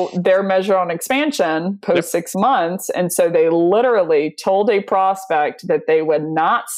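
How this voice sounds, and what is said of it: Usual voice. Nothing is said of it.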